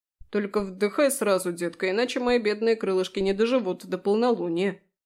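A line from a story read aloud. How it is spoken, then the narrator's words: Grumbling. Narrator (Russian): проворчал Фрей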